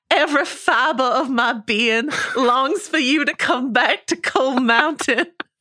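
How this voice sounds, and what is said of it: Imitates an actress's film character voice. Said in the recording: “impression of Nicole Kidman and Cold Mountain”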